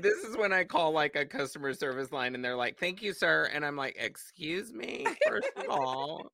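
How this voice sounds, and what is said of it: Raspy voice with vocal fry. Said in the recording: “I feel like I just got like extra raspy in this whole time ... I love some vocal fry.”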